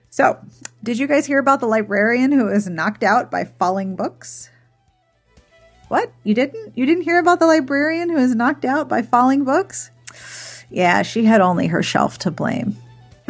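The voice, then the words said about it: Mock-serious voice. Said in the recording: “must have serious voice”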